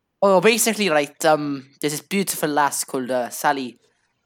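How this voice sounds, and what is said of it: Slipping put-on accent. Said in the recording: “I don't know where my accent's going. It's gotten worse throughout this entire recording”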